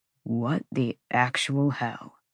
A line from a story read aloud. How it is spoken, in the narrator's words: Declan breathed